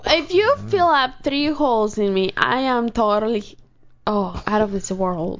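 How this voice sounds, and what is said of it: Strong Spanish accent. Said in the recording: “the more your Spanish accent increases”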